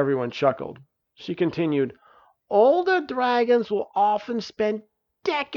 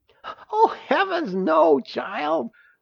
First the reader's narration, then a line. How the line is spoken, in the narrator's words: laughed Uriel